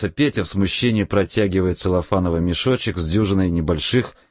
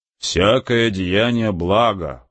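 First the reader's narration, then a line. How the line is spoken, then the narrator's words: Low booming drone. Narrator (Russian): прогудел отец Федор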